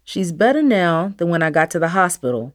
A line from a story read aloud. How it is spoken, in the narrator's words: Dad said quickly